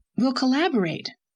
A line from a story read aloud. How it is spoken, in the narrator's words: cried Owen delightfully